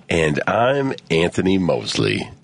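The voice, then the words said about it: Put-on radio announcer voice. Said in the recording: “this is my radio voice.”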